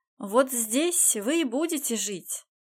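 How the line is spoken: Loud and cheerful. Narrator (Russian): громко и весело произнес Райден

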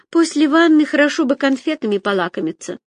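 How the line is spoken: Sighing. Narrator (Russian): вздохнула Агата

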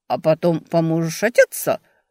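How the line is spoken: Chuckle. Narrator (Russian): хохотнул Эб

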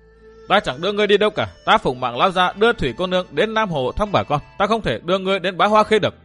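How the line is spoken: Loud denial. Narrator (Vietnamese): Tăng Hưng lớn tiếng phủ nhận

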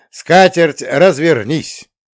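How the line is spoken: Booming roar. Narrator (Russian): громогласно проревел я

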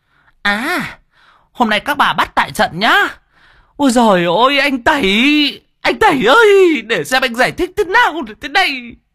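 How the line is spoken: Shrieking. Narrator (Vietnamese): hai cô rít lên

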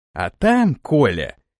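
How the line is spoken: Snide. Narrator (Russian): ехидно произнес Самойлов

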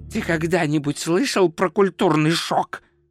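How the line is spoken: Hissing. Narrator (Russian): прошипел он

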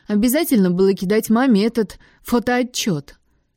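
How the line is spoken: Loud laughter on phone. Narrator (Russian): В трубке громко рассмеялись

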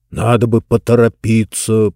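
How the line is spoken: Grumbling. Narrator (Russian): проворчал Джонс

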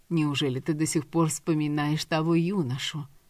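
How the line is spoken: Quiet mother's question. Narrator (Russian): тихо спросила мать

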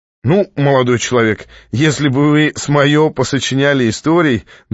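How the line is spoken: Pleased laughing writer. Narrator (Russian): довольно рассмеялся писатель

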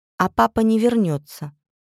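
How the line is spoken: Very calm reply. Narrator (Russian): очень спокойно ответила мама

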